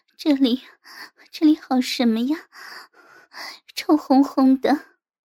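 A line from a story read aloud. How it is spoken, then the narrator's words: Coquettish panting. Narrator (Chinese): 我娇喘着说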